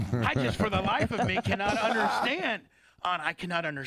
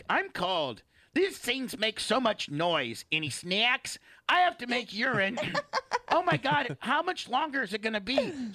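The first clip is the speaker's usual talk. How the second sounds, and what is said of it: Imitates another person's voice. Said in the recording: “we were imitating you”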